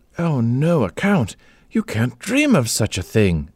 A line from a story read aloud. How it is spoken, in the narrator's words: exclaimed Amanda